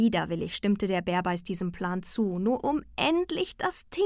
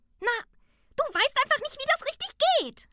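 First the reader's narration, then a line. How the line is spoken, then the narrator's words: Shouted far too loudly. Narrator (German): schrie das Dingeli viel zu laut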